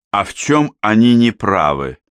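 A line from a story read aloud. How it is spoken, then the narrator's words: Plain. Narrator (Russian): спросил я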